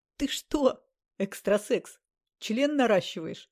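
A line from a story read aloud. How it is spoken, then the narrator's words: Speaking through laughter. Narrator (Russian): сквозь смех проговорил Ласковин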